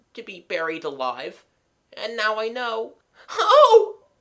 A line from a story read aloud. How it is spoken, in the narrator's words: His voice suddenly rose to a shriek